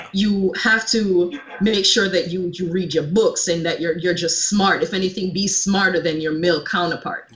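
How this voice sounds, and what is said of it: Jamaican accent. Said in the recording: “I'm a Caribbean born woman. I'm born from Jamaica, if you can't already tell by my accent.”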